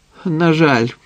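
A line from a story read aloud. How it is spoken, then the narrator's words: Sigh. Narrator (Ukrainian): зітхнув Самад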